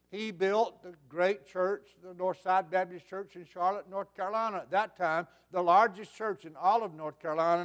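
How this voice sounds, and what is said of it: Southern American accent. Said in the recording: “You think I have a Southern accent”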